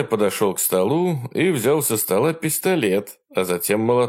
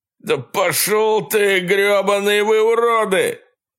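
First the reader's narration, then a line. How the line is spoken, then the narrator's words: Yelled. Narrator (Russian): заорал со своего места Брэнсон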